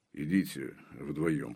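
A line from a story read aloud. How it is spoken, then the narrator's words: Muttered. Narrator (Russian): пробурчал Железовский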